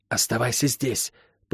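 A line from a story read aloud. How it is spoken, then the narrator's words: Hissing. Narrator (Russian): прошипела она братцу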